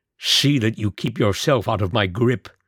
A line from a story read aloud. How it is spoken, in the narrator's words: he snarled